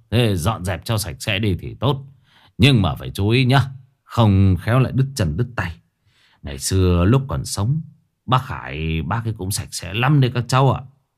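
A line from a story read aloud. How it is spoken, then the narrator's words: Forced hypocritical smiling voice. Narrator (Vietnamese): cố mỉm cười, nói bằng giọng giả nhân giả nghĩa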